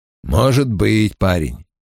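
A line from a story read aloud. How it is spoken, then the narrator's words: Mumbling, then coughing. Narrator (Russian): пробурчал Том и закашлялся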